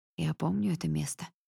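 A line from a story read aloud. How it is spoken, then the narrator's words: Muttered. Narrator (Russian): бормочет он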